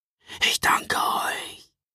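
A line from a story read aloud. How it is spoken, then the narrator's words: Man whispering. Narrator (German): flüsterte er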